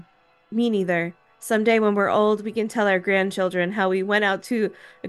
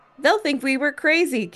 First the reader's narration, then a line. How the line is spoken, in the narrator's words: Kim laughed